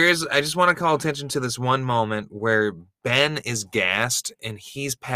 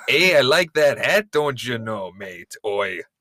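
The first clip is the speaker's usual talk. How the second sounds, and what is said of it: Mixed Minnesotan and Australian accent. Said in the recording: “the deep Minnesotan accent and the deep Australian accent”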